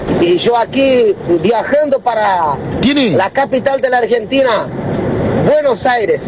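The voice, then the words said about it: Unusual foreign accent in Spanish. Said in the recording (Spanish): “tiene un acento muy raro”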